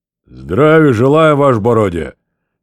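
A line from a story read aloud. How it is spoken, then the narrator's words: Clipped bass shout. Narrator (Russian): тем же отрывистым басом крикнул он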